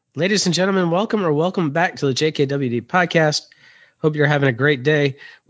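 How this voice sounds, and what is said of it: Sick, flu-affected voice. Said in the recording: “apologize for my voice. I got a little flu-like something”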